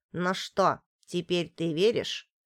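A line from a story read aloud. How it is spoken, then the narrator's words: Grumbling. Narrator (Russian): проворчал корабел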